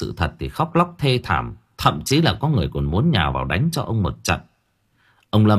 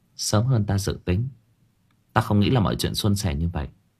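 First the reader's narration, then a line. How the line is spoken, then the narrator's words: Soft speech. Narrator (Vietnamese): Chị Đan khẽ nói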